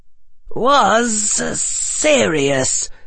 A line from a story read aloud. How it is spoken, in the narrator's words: hissed Harry